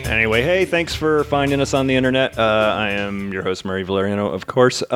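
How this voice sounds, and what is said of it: Tired voice with a cold. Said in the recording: “I'm dragging a little ass today. I have a bit of a cold”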